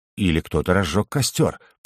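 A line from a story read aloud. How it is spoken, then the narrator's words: Mutter. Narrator (Russian): пробормотал я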